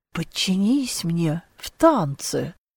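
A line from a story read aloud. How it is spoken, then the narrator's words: Near purr. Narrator (Russian): Почти промурлыкал очень креативный партнер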